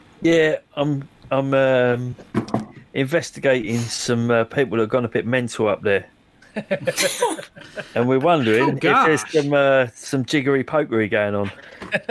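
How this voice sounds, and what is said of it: East End London accent. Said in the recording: “I'm just having some difficulty understanding your accent. ... East End of London”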